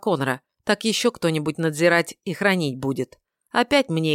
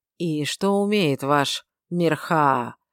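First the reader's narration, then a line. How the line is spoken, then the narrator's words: Gloomy question. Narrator (Russian): мрачно поинтересовался комендант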